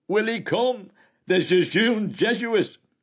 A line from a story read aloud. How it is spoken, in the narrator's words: laughing with delight, cried